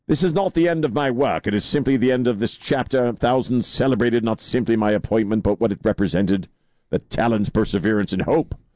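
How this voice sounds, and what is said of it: Put-on funny accent while reading. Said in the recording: “Why do you have that accent? He didn't talk that way. ... It just sounds funny. ... Because Cambridge.”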